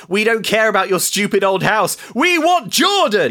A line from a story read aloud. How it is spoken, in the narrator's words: A woman frothing at the mouth shouts